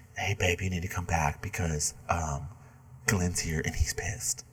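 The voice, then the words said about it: Quiet mother's voice, hushed. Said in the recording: “That's the best voice you just did, by the way. ... That voice you just did of a mom talking quietly around someone was unbelievable”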